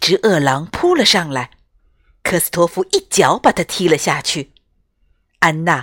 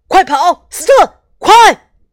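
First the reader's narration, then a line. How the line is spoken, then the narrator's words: Hurried shout. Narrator (Chinese): 科斯托夫连忙喊道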